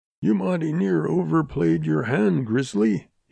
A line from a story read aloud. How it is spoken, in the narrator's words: he rasped